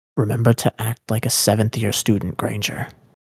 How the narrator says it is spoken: Malfoy murmured in her ear, suddenly far too close

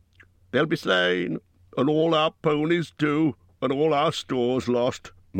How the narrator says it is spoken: moaned the others

